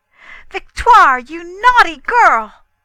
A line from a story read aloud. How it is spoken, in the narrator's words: feeling dreadfully angry cried out